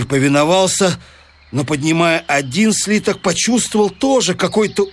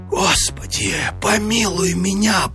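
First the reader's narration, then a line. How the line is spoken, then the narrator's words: Terrified whisper. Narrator (Russian): прошептал он в смертельном испуге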